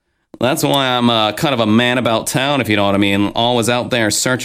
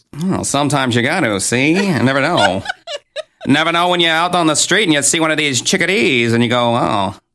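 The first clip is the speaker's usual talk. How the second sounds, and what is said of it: Put-on mid-Atlantic accent. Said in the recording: “talk in a mid-Atlantic accent”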